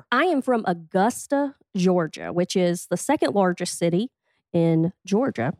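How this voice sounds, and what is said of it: Thick Southern US accent. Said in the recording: “you can hear a thick accent”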